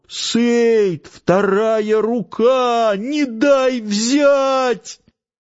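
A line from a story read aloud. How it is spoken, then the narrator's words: Desperate shout. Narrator (Russian): В отчаянии он закричал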